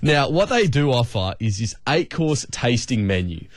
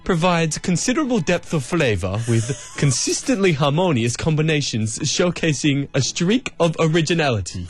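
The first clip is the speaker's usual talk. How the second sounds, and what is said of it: Put-on fancy, posh voice. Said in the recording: “put on my best fancy voice ... I'll try my best fancy voice ... That was my best fancy voice.”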